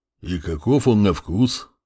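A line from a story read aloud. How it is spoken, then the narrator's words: Deep voice close by. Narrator (Russian): пробасил Буран совсем рядом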